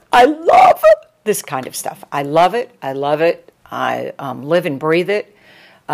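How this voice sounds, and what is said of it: Energized, picked-up animated delivery. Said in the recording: “you can tell the way my voice is picked up and my momentum”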